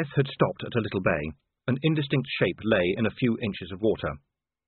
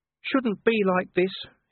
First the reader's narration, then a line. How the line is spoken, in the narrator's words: he whined